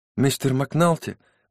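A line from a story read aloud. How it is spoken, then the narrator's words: Trembling voice. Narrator (Russian): дрожащим голосом произнесла Кэти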